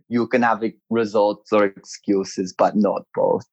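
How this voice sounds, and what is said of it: Arnold Schwarzenegger impression. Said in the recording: “chuck on the Arnold Schwarzenegger accent”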